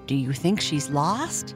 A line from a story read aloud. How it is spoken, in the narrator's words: Puddles whispered